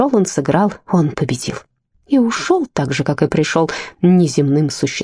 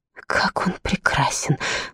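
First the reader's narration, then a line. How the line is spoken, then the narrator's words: Whispered. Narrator (Russian): прошептала Гортензия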